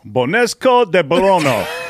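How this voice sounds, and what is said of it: Unconvincing put-on French accent. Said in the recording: “How'd you like my French accent right there? ... Your French accent? Was that supposed to be French? ... That was French, believe it or not.”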